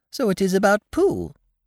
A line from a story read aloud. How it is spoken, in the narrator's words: he squeaked